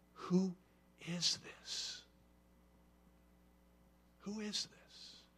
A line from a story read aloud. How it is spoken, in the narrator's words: the disciples whisper to each other